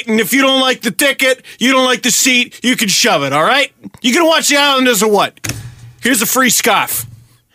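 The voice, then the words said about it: Put-on Brooklyn or Boston accent. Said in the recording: “He sounds like he should be operating a stadium in Brooklyn. ... Or Peabody, Massachusetts, depending on how you interpret my accent.”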